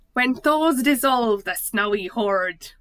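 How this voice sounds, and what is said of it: Failed attempt at Scottish accent. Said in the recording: “read in your fantastic Scottish accent ... That's not Scottish ... I can't do Scottish”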